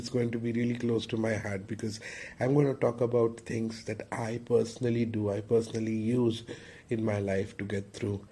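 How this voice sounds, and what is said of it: Sick, congested, distorted-sounding voice. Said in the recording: “Forgive my voice and the distorted accent. ... I really, really have a super bad cold. ... I hope I'd be back with my normal voice”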